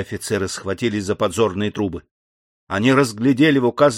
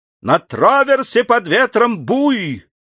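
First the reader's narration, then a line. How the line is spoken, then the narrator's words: Sudden sailor's shout. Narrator (Russian): Вдруг матрос крикнул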